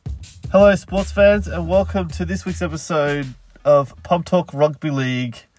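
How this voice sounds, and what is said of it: Sick, congested voice. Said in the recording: “as you probably can hear from my voice, is a little bit sick”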